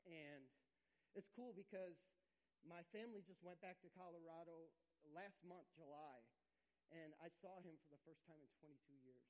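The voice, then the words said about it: Emotional, choked-up voice. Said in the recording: “getting emotional”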